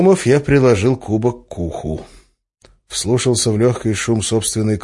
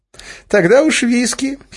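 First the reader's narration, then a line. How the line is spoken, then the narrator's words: Giggled. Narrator (Russian): хихикнул Разум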